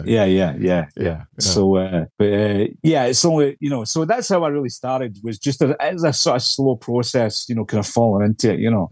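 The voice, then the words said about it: Scottish accent. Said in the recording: “the Scottish accent ... Scottish accent because it's quite heavy ... so he might understand my accent”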